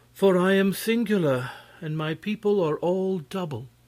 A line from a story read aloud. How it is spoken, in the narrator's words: she answered, sighing